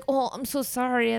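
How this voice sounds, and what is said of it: Imitates a cartoon character's accent. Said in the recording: “he does have that Ratatouille accent ... This sounds just like him, I think.”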